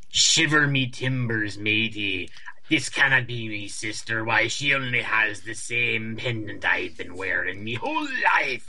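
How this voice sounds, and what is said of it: Exaggerated pirate accent. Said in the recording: “accent... like it's like talk like a pirate day t- t- amped up to eleven”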